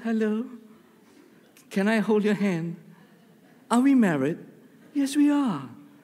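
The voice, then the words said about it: Put-on English accent. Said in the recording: “I just switched to an English accent.”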